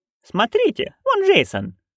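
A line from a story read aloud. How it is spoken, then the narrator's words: Happy nanny exclaiming. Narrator (Russian): воскликнула счастливая нянюшка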